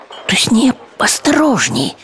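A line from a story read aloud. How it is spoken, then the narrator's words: Whispered. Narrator (Russian): прошептал Виктор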